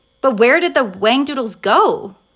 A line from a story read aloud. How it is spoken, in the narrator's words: cried Lindy